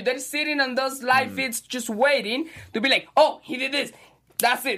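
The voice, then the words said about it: Speaks with a foreign accent. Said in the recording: “accent”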